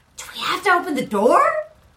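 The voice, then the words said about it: Whispered question. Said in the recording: “I'm whispering this.”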